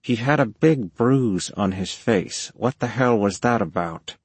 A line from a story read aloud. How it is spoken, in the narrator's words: The guy was wheezing